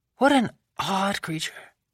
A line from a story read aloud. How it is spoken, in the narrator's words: Madame Lebel murmured, with a frown